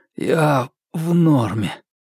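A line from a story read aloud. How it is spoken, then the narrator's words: Hoarse wheeze. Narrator (Russian): просипел Марк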